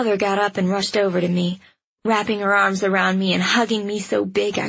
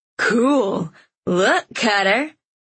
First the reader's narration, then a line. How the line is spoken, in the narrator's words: a little too loudly